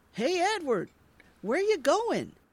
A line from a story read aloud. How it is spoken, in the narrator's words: He yells after him